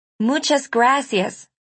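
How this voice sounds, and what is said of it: Spanish phrase in a heavy American accent. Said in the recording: “I repeated in my terrible American accent.”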